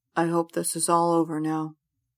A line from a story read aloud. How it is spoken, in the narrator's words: Colin mumbles to himself